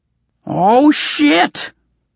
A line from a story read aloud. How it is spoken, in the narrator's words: Goblin shrieked